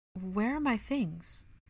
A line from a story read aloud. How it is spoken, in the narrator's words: shook his head sadly, filled with great sorrow as he spoke